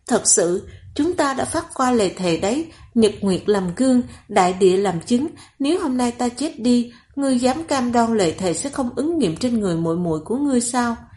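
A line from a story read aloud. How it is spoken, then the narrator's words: Solemn cursing woman. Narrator (Vietnamese): Nàng không khóc lóc cầu xin nữa, ngược lại giọng nói giống như nguyền rủa, từng câu từng chữ trịnh trọng nói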